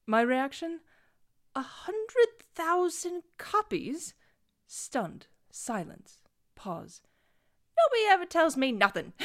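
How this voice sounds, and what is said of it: Bad put-on British accent. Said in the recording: “Bad British Accent Reader Theater”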